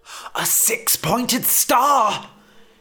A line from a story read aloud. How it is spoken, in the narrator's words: He realised he was shouting